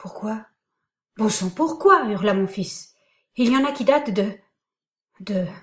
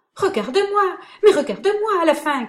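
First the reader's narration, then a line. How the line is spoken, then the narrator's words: Shouted. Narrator (French): cria Laurent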